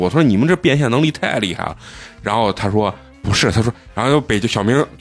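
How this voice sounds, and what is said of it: Usual voice. Nothing is said of it.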